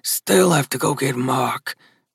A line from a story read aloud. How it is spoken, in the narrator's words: Gus grumbled